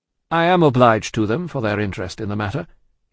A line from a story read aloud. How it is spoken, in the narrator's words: he answered, a little coldly as to them, though very warmly as to the doctor